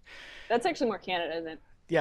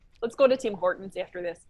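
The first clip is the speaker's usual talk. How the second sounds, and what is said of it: Put-on Canadian accent. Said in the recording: “Chicago Northwest accent ... that was a little more Canuck”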